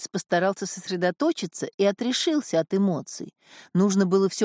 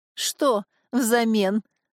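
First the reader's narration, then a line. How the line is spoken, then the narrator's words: Laughing. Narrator (Russian): засмеялся визирь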